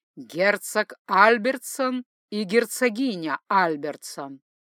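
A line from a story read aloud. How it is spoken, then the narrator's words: Loud announcement. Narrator (Russian): Старший лакей громким голосом возвестил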